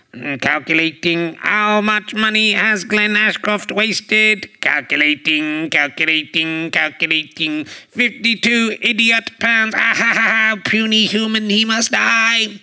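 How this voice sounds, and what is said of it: Comic robot voice. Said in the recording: “I've got to go over to Robot Voice. ... So that was Robot Voice talking there.”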